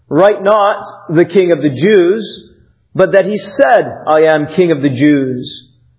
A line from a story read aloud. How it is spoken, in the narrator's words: Pilate answered